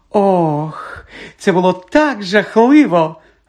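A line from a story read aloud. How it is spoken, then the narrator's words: Joyful drawl. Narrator (Ukrainian): радісно протягла вона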